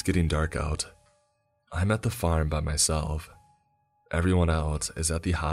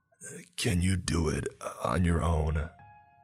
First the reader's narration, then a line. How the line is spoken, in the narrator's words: clearly in pain, and he murmurs